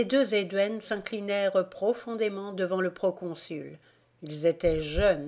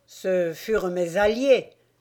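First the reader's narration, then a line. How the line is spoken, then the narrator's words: Rough voice. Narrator (French): fit César d'une voix rude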